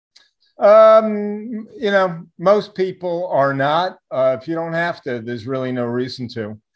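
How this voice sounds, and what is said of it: New York accent. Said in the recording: “your uh, New York accent. I hear. I love when you say chart.”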